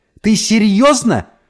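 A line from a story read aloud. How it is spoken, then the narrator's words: Out-of-control yelling. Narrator (Russian): заорала мама, окончательно перестав владеть собой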